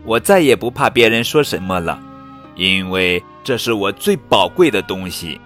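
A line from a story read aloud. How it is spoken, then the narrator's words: Loud emotional outburst. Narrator (Chinese): 真美忍不住大声地说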